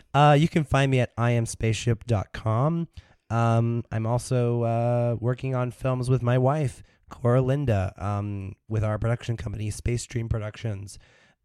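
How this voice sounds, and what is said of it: Raspy voice. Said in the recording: “my voice will be in working order ... your voice worked to your advantage ... It's raspy.”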